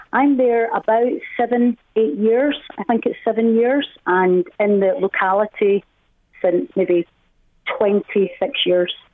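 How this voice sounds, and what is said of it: Scottish Glasgow accent. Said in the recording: “I love your accent ... Where are you from in Scotland originally? ... the very posh part of Glasgow ... it's a beautiful accent”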